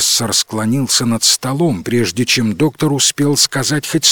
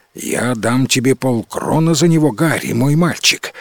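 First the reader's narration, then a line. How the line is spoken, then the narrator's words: Quick. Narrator (Russian): сказал он быстро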